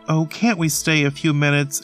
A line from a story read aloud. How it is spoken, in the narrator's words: Ethel begged